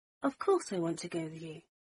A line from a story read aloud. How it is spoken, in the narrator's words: Harry said softly